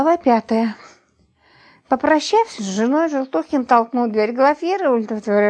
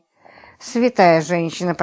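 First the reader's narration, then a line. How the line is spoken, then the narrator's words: Muttering. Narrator (Russian): пробормотал Роман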